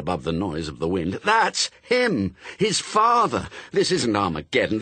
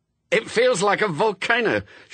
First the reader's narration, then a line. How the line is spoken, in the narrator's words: shouted Newt